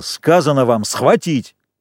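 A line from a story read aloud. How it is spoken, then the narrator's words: Angry yell. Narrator (Russian): Джек заорал злобно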